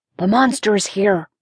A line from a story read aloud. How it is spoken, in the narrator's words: Jack whispered